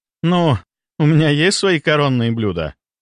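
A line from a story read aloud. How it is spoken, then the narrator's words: Laughing. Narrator (Russian): рассмеялась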